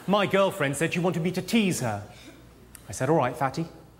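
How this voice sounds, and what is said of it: English accent. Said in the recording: “some of you may be having difficulty with my accent. Of course, technically, I don't have an accent. I'm English. This is just how things sound when they're pronounced properly.”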